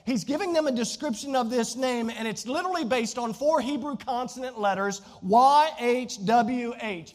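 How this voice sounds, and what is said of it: Southern Virginia American accent. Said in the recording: “my Southern Virginia accent”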